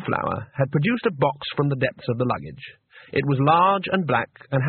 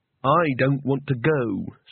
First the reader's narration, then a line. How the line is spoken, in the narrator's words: said Rincewind firmly